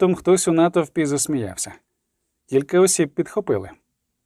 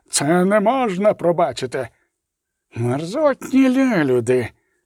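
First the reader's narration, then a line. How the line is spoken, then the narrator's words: Hissing priest. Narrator (Ukrainian): просичав жрець Вілемер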